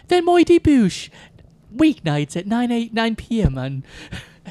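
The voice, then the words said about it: Put-on British woman's accent. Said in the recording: “that was an okay British accent. ... You make a really good British lady. ... your British lady accent is terrific. ... You're a terrific British lady. You're a regular Mary Berry.”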